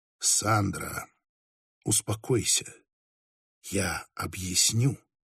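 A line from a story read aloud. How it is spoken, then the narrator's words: Barely audible. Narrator (Russian): еле слышно произнес Хоктерн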